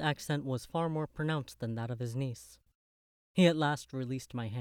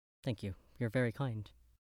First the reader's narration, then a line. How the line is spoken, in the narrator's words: I murmured